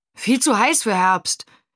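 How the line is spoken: Calling over shoulder. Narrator (German): rief Steve Benji über die Schulter zu

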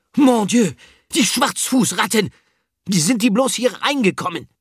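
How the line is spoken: Scream. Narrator (German): Filou ... schrie

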